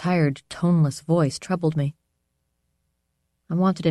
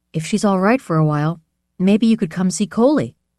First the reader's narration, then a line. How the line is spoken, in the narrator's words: I said